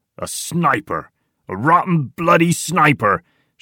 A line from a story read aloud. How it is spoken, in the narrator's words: shouts Tiny